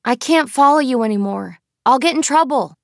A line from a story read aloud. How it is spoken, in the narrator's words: Christopher called out